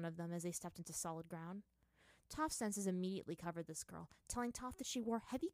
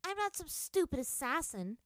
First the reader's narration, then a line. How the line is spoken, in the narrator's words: Toph shouted back